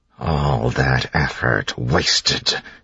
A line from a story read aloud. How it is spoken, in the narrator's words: he hissed